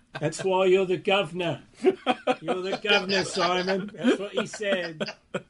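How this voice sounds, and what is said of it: Put-on English accent. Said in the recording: “You do a good English accent.”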